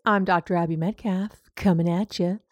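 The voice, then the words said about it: Deliberately lowered, deeper voice. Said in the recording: “Why did I lower my voice?”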